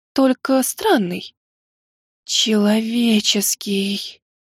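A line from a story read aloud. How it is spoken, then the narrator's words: Shocked whisper. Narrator (Russian): Шокированно прошептала Нима, самая большая умница нашей академии и моя сестра по духу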